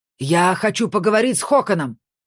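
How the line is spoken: Shouting. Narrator (Russian): закричал Фрей

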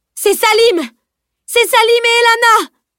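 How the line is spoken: Exclaiming. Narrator (French): s'écria

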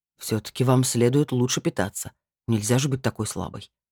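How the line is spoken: Grumbled. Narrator (Russian): буркнул Эол

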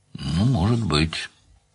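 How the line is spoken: Mumbling. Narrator (Russian): пробормотал Данил

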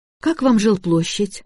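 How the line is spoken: Timid question. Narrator (Russian): робко спросила Настя

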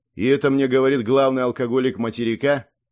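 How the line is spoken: Snide question. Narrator (Russian): ехидно спросил Артур

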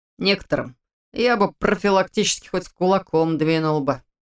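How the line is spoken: Grumbling. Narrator (Russian): проворчал он

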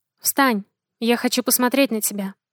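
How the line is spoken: Gentle request. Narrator (Russian): попросил ласково

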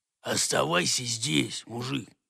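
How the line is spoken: Whispered reply. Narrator (Russian): прошептал ему в ответ шпон

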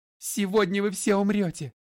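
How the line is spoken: Forced roar. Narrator (Russian): вынудила меня прореветь

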